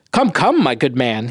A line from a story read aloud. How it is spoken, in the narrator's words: said